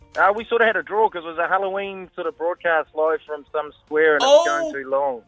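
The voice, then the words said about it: New Zealand accent. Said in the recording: “where's that accent from? ... New Zealand, mate.”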